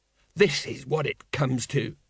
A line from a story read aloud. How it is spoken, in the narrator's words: muttered Colon